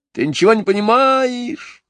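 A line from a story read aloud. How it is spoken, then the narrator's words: Yelling even louder. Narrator (Russian): еще сильнее вопил Джон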